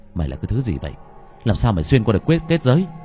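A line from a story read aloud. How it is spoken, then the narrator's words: Muttering. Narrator (Vietnamese): Anh lẩm bẩm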